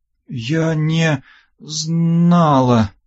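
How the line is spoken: Breathless, fearful, panicked. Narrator (Russian): выдохнула Ольга, чувствуя, как живот сводит от страха, а в груди поднимается волна паники

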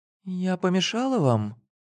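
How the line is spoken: Timid, shy woman. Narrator (Russian): спросила она робко и застенчиво

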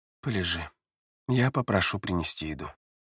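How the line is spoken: Calm. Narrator (Russian): спокойно сказал Люц

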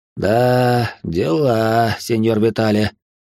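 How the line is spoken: Sigh after pause. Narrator (Russian): вздохнул он, минуту помолчав

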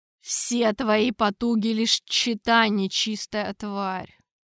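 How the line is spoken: Through gritted teeth. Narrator (Russian): процедил великий инквизитор

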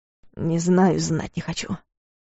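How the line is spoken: Muttered. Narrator (Russian): пробормотал Клайв

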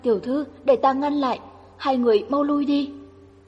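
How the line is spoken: Terrified cry. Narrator (Vietnamese): Lan Nhược kinh hãi kêu lên

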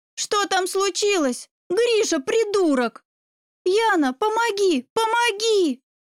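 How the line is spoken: Panicked screaming. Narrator (Russian): завопила я, когда ее брат бросил меня на кровать и навалился сверху

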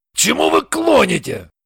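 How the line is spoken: Angry question. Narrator (Russian): ответил Шульгин и сердито спросил

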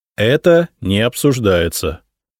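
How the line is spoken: Mock stern. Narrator (Russian): нарочито строго сказал я

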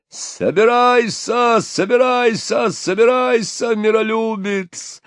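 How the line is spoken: Loud yelling. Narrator (Russian): орал Патрик

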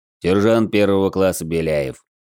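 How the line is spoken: Reluctant grumble, stocky man. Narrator (Russian): нехотя проворчал невысокого роста крепыш

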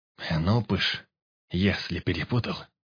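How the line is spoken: Muttered under breath. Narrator (Russian): Пробормотал под нос

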